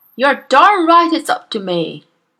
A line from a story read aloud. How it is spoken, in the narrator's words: Miss Trunchbull bellowed